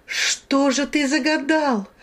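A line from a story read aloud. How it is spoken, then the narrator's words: Desperate shout. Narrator (Russian): в отчаянии закричала я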